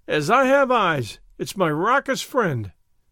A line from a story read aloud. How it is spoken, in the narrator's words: cried